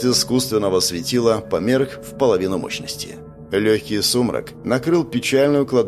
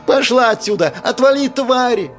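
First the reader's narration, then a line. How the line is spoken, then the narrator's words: Shrieking woman's voice. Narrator (Russian): раздался визжащий женский голос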